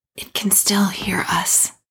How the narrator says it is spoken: whispered

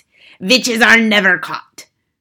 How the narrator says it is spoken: snapped the Grand High Witch

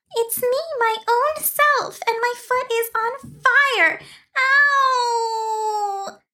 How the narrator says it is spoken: wailed

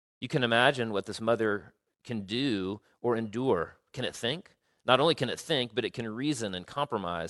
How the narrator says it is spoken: said the Creator

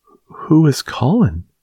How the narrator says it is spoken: she faltered

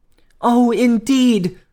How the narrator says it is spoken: cried the poor princess

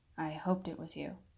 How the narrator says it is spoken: he replied

